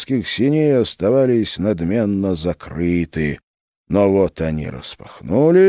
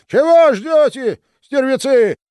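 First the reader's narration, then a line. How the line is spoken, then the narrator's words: Furious shout. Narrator (Russian): закричал Иоанн, доводя себя до ярости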